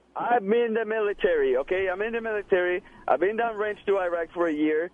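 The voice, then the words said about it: Speaks with a noticeable accent. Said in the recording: “What's with the accent? ... Then what's with the accent?”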